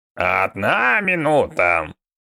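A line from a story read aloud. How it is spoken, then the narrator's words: Creaky old woman. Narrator (Russian): проскрипел старуха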